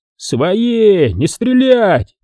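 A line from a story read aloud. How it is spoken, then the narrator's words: Shout. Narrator (Russian): Сергей крикнул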